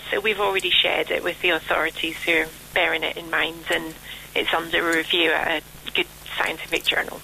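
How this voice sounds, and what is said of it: Scottish accent. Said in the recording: “that lovely Scottish accent”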